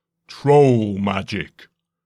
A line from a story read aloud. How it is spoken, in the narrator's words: came a booming, baritone voice from beneath the bridge